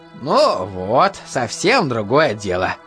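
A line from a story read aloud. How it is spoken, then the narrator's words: Pleased voice. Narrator (Russian): довольным голосом сказал Энетович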